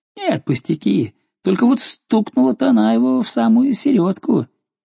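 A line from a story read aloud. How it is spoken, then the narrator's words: Laughing. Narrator (Russian): Но он засмеялся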